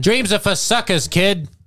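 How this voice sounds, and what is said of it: Put-on accent for dad character. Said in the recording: “We've changed accents twice on him. ... I'm just going to keep switching every time he talks.”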